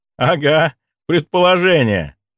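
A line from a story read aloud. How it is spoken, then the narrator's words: Loud laughter. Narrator (Russian): захохотал Федор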